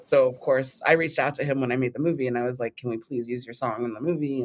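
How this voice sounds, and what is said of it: Californian American accent. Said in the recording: “your lovely Californian accent. I can hear the sunshine in your voice.”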